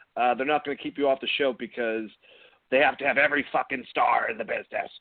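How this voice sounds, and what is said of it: Poor imitation of another person's voice. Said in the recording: “That was a horrible impression of, of modern Vince. I can't do modern Vince”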